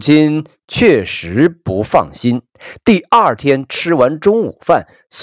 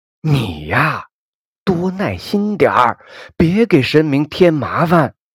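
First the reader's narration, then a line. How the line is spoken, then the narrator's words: Soft scolding. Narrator (Chinese): 似乎就像对着父亲一样，小声的教训起来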